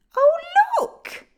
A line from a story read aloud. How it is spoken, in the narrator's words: squealed a little girl